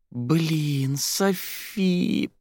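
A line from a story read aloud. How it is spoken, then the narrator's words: Moaning. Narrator (Russian): простонала Кристина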